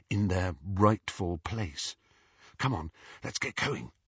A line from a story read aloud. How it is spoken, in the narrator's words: whispered Hermione